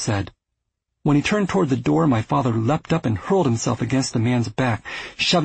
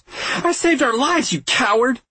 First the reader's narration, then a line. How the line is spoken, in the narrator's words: she yelled at my father